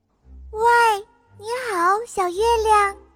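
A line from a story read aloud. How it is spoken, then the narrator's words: Calling out. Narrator (Chinese): 开始呼叫小月亮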